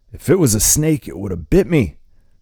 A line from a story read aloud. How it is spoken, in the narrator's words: the man shouts